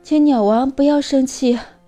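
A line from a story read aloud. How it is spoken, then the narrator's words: Anxious, panting, hurried. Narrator (Chinese): 小麻雀不安地喘着粗气，急忙解释道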